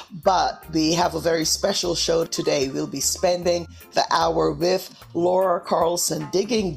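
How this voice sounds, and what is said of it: Slightly hoarse voice. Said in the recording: “a little hoarse today”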